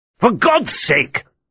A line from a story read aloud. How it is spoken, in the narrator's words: snapped